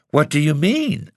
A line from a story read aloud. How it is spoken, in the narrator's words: exclaimed